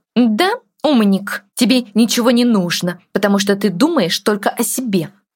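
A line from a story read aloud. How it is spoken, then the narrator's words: Said through gritted teeth. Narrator (Russian): процедила она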